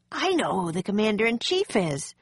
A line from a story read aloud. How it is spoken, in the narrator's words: he exclaimed